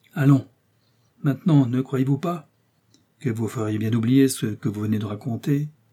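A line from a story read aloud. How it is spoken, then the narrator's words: Cordial. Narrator (French): reprit d'un ton cordial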